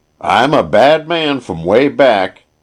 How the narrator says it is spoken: he yelled at the top of his voice

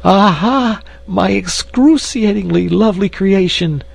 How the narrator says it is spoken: he cried

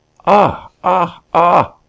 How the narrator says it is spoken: questioner of gods and unafraid, cried out

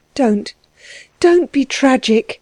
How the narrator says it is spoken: she begged, anxiously

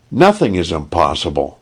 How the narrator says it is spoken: cried eagerly

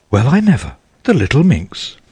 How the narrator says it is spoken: exclaimed Mrs

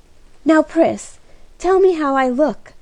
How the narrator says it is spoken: cried Kitty

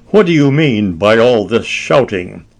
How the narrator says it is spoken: he demanded rather crossly

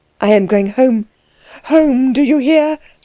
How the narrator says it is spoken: said Klutz wildly

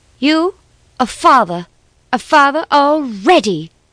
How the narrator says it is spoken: she cried, all her sweetness swallowed up in unforgiving wrath

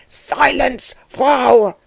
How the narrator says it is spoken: roared Dellwig

